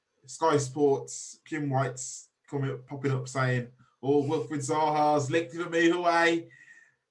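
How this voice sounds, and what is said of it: Put-on Scottish accent imitation. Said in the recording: “That's the best Scottish Jim accent.”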